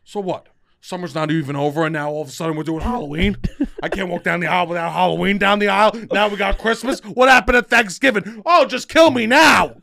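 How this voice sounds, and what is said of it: Grumpy older person voice. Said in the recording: “my impression of anyone over 40”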